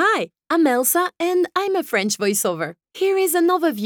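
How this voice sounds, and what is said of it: Usual voice. Nothing is said of it.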